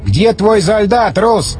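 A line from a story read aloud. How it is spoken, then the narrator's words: Shouted. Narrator (Russian): крикнул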